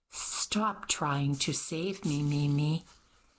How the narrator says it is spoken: she sighed

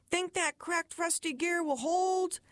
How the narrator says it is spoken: there would be a shout

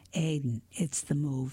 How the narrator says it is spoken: said softly

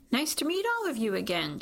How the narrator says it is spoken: she says brightly

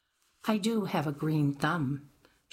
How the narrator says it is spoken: she responded flatly

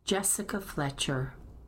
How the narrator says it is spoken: said Addie

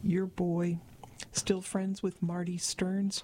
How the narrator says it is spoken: Gina asked

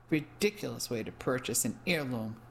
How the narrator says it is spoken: murmured disgustedly

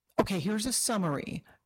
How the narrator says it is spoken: Mira said excitedly

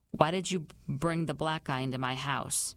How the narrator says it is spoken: He kept his voice just low enough that only I would hear

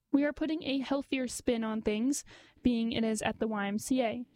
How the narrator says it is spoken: said

